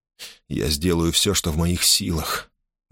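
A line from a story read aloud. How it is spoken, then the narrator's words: Trembling voice. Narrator (Russian): дрогнувшим голосом сказал Гордон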